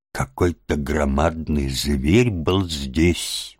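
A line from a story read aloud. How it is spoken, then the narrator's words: Puzzled muttering. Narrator (Russian): бормотал он недоуменно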